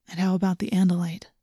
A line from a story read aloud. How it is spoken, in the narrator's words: He asked in a quiet voice